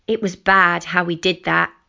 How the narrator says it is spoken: she said

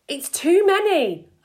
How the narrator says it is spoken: I cried

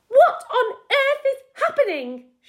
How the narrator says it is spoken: She shrieked

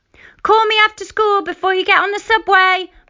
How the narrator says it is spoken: Mum yelled at me from the window

